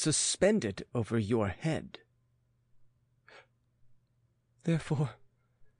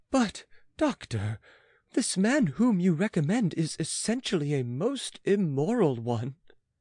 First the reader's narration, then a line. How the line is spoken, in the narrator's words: exclaimed the queen